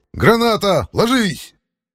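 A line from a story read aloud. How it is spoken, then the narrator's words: Shout. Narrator (Russian): крикнул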